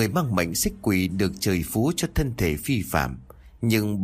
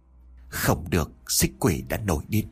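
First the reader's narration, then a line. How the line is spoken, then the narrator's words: Muttering. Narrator (Vietnamese): Trần Minh lẩm bẩm mà nói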